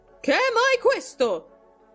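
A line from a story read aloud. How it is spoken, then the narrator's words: Loud shrill cry. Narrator (Italian): gridò con voce alta e stridula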